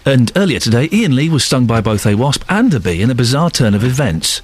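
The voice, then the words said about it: Authoritative newsreader voice. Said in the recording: “do it in your authoritative voice ... Doing the proper news voice”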